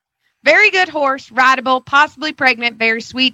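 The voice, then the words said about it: Put-on Southern accent, drunk character. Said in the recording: “read this in a Southern accent ... my drunk alter ego's name is Gloria”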